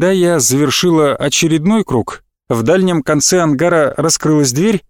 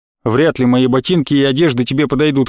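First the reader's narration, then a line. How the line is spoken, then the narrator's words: Wry snort. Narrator (Russian): хмыкнул Роман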